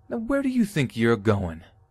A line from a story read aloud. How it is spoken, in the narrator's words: the daughter angrily says